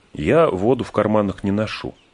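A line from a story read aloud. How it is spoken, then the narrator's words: Plain. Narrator (Russian): сказал Фродо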